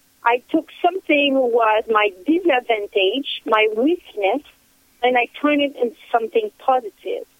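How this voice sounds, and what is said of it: Non-native English accent. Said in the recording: “I barely spoke English ... my accent was a weakness ... your accent is so cute ... I love the accent myself”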